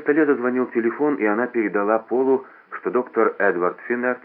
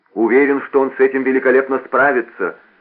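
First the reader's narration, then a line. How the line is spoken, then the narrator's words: Shouted after someone. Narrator (Russian): крикнул ей вслед Пол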